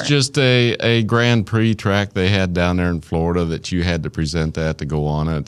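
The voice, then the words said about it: Southern US Arkansas accent. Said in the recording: “There's my Arkansas accent.”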